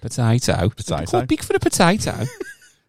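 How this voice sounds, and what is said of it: Put-on Birmingham accent. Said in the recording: “I don't know where the accent came from. That's my Birmingham. ... accent.”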